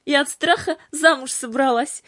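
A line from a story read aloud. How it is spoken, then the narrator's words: Laughing. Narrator (Russian): засмеялась Кира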